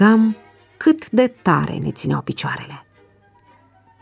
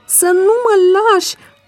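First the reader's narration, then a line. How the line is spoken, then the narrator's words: Tearful shout. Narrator (Romanian): am strigat în timp ce îmi dădeau lacrimile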